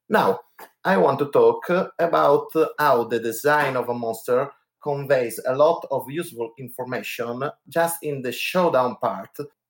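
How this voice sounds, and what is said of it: Strong Italian accent. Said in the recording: “my horrible, horrible Italian accent”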